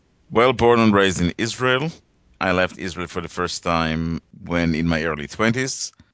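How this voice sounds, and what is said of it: Slight foreign accent. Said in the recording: “You have a little bit of an accent.”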